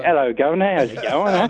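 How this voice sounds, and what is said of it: Poor put-on English accent. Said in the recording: “I have no idea how to do a proper English accent ... Sounds like Robbie ... it's got a New Zealand accent, not a British accent.”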